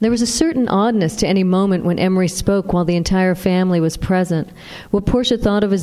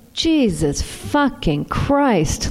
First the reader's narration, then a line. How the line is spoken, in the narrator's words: Louise moaned